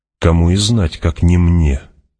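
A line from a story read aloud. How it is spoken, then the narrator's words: Conciliatory tone. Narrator (Russian): отвечал Стилгар примиряющим тоном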